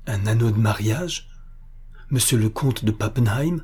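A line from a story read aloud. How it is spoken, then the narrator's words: Broken voice. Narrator (French): dit-elle d'une voix brisée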